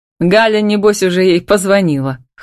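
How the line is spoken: Pleased snort. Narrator (Russian): хмыкнул довольно

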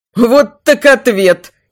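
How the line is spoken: Giggled. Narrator (Russian): хихикнул Амирис

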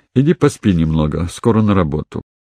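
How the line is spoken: Quiet but firm order. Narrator (Russian): Она негромко, но решительно велела

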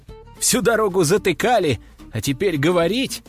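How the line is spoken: Laughing loudly. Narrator (Russian): расхохотался я

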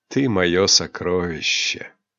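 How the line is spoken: Whispered. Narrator (Russian): прошептал Рионар

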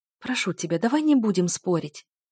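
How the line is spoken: Whispered. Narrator (Russian): зашептала я

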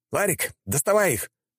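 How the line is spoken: Shouting. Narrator (Russian): крикнул я

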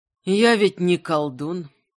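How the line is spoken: Tired reply. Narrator (Russian): устало ответил Огнияр

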